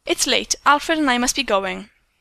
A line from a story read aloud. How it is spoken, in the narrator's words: said coldly